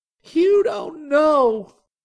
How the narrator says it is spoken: Sumiko cried

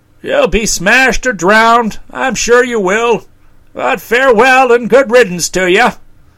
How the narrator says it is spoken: called out

